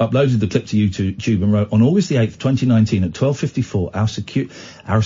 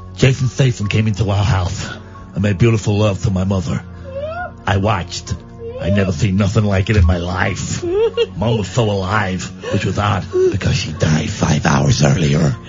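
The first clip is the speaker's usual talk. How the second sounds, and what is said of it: Put-on American accent. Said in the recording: “Doing an American accent.”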